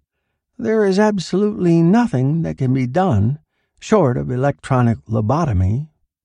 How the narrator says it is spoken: Milhop said, in a tired voice

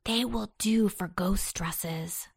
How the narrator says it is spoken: whispered Antone

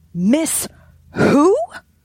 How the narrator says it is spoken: shouted

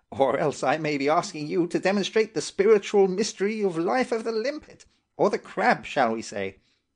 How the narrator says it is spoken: said the old doctor, laughing gently to himself

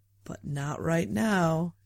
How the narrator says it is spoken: she purred

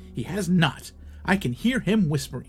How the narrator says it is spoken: replied Jeff

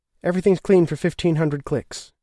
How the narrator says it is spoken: said

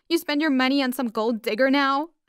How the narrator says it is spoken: I cried

